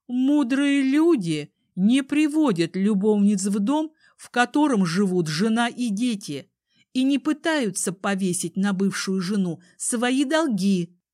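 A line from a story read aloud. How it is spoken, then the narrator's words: Stern and loud. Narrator (Russian): строго и громко говорю я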